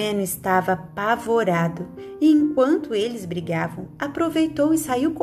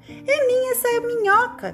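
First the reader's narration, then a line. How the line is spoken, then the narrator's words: Shouting. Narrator (Portuguese): gritava Teteco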